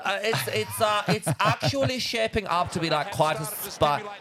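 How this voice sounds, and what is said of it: Camp German accent. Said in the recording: “Can you say that in a camp German accent?”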